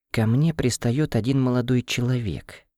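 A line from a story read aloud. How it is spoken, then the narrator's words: Whisper. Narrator (Russian): понизив голос до шепота, сообщила сестра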